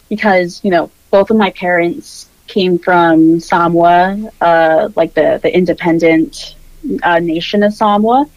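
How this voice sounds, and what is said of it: General American accent, carefully pronounced syllables. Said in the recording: “I have a very general American accent. I might overpronounce my syllables a little bit”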